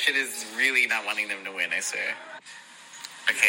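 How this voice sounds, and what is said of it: Usual voice. Nothing is said of it.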